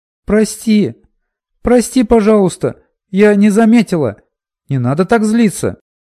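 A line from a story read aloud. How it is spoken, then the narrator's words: Apologetic shout. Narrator (Russian): Закричала Миноли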